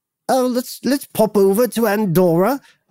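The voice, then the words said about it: Put-on old-fashioned British accent. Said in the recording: “I don't know why they have a British accent... we're doing a British accent that doesn't exist anymore”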